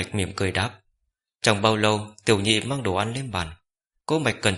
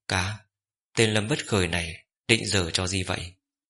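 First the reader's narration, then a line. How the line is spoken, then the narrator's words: Whispered question. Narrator (Vietnamese): Cố Sơ Đồng lập tức ghé sát tai huynh nhỏ giọng hỏi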